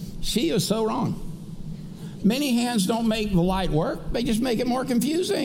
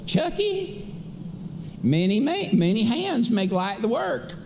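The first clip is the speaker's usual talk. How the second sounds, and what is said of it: Sweet crackly southern old lady voice. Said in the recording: “she had that kind of sweet little crackled southern old lady voice”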